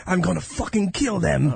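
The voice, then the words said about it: Poor Australian accent sounding Mexican. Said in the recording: “Don't let me do an Australian accent. ... That almost sounded Mexican. ... Oh, that was Australian?”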